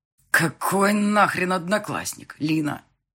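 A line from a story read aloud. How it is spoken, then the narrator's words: Growling close to ear. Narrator (Russian): прорычал Марат уже возле моего уха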